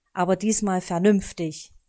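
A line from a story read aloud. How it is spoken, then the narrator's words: Stern raven. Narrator (German): sagte der Rabe streng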